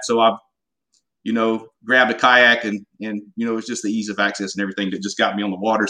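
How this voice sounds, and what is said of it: Southern US accent, slight drawl. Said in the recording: “I got a little bit of an accent too sometimes... you sound like you're from Louisiana too... I got a good Southern accent, but it's definitely not a Texas accent,... I got a little Southern draw here and there”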